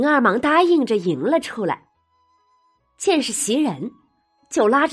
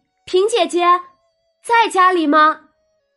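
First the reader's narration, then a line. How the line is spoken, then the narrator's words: Loud call through window. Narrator (Chinese): 袭人大声的隔着窗子就问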